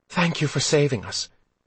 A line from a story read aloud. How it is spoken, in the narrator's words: panted